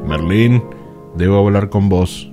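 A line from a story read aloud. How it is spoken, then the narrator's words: Resonant incredulous male voice. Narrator (Spanish): El caballero incrédulo con una resonante voz dijo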